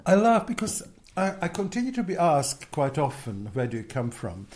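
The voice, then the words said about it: Non-native accented English. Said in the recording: “if you have an accent, which one I clearly haven't shed, after 40 years”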